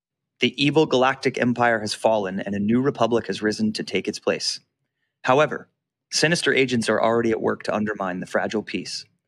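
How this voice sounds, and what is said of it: Dramatic theatrical narration voice. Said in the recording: “put on your theater voice.”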